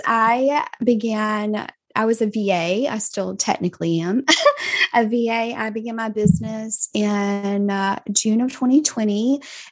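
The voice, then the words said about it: Southern US Georgia accent. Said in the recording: “I am from a very small town in Southwest Georgia ... you might could tell that by my wonderful accent.”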